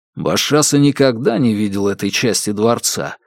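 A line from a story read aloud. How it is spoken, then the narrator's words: Plain. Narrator (Russian): спросил Кай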